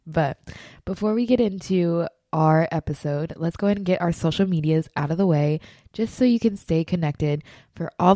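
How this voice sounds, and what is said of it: Slightly coughy, throaty voice. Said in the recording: “hear it in my voice,... I do have a little cough... I have a little tickle in my throat”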